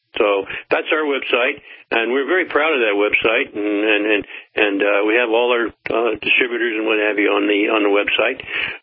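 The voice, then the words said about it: Southern American accent. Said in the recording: “I can't really get rid of that southern accent, whatever.”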